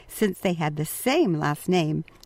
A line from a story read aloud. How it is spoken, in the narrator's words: Mario laughingly said